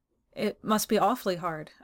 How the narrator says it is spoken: I stammered, confused by this display of speechless feeling

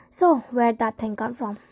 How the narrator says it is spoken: I asked him, keeping my tone casual

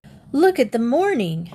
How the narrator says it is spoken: Jim cried

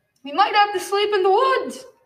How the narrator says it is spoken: Albert shouted

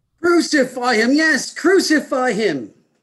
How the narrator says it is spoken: the chief priests and the police, they shouted

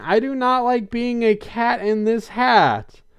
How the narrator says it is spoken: runs screaming

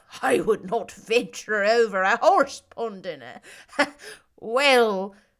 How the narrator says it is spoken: Laughing heartily

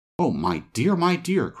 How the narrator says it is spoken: cried the woman

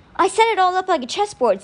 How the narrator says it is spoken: Sticky yelled

